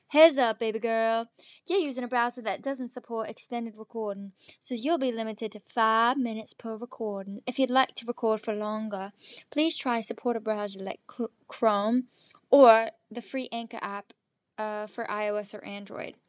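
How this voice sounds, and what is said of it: Put-on Southern American accent. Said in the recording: “Should I do a southern accent, darling? Okay, I'm gonna read it in a southern accent.”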